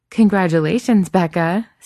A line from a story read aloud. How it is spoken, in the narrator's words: Cynthia Rose laughs